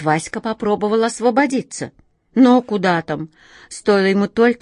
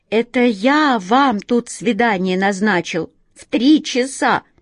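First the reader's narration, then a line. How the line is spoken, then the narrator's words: Cat moaning. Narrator (Russian): простонал кот Васька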